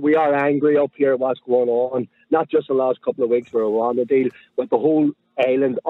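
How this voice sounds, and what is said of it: Northern Irish accent. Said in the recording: “your Northern Irish accent. You're from Belfast”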